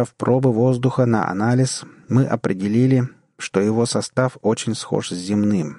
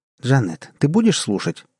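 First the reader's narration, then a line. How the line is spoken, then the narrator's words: Irritated. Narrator (Russian): раздраженно произнесла Сюзанна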